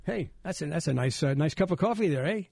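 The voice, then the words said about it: Put-on Canadian accent. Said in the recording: “Canadian accent? ... You said things like about?”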